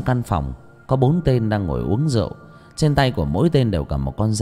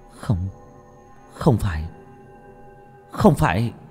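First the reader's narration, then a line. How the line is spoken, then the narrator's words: Trembling stammer. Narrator (Vietnamese): Tôi run rẩy lắp bắp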